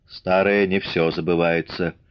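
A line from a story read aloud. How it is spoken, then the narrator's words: Dry. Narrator (Russian): сухо сказал Мишка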